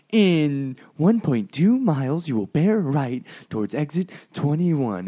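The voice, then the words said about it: Imitates a GPS navigation voice. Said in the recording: “the stupid voice telling me where to go”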